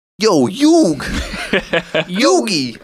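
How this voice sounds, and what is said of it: Imitates cartoon character's accent. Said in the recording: “There's an accent right there. ... Oh, I forgot he sounded like that. ... Sounds like a dumbass.”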